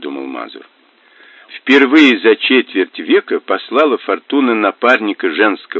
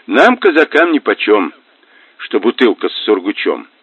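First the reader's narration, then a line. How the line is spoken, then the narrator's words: Grumbling in Russian. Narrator (Russian): проворчал Мазур по-русски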